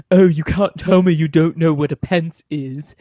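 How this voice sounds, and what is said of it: Imitates another person's voice. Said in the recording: “this is my impression of your co-host”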